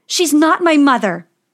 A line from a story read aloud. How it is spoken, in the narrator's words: yelled Snow White